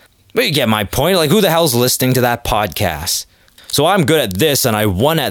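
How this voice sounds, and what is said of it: Usual voice. Nothing is said of it.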